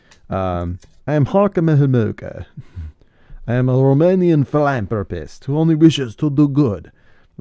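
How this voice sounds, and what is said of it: Imitated Romanian accent, film character. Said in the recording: “Tim Curry's Halka Mahamuka ... it wasn't the best accent”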